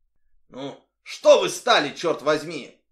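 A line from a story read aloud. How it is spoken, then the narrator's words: Barked. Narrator (Russian): рявкнул на нее Оливер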